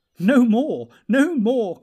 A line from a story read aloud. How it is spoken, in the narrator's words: cried the elves, laughing